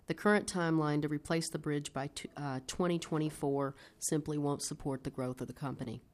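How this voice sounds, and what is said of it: Non-local accent. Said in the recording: “We regard Minnesota as home, although my accent may say not”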